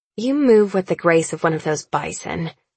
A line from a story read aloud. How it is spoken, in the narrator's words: I sneer